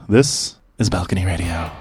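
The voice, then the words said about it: Radio announcer voice. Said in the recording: “radio voice”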